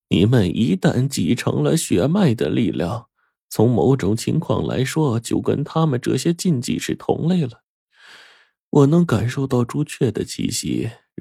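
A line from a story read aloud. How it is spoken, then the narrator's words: Old woman, sighing. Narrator (Chinese): 奶奶一叹说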